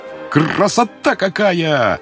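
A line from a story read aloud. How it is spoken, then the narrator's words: Enthusiastic exclamation. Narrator (Russian): воскликнул поручик Смолянинов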